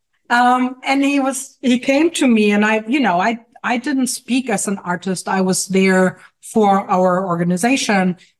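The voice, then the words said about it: Noticeable foreign accent. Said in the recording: “heard my accent, which jarring it is”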